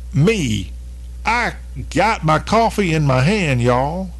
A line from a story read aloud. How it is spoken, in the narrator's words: in the most southern voice